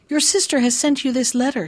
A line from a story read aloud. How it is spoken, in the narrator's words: he said, and added quickly